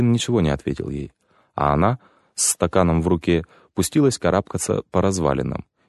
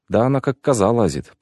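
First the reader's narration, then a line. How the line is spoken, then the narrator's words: Old woman muttering to herself. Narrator (Russian): пробормотала себе под нос старушка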